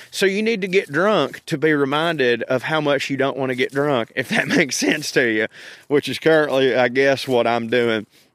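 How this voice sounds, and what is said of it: Thick regional accent. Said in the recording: “you can tell when I've had some moonshine, my accent gets thicker than a bowl of oatmeal”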